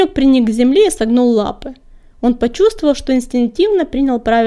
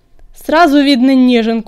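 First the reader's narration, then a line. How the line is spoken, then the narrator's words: Growling. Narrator (Russian): прорычал коготь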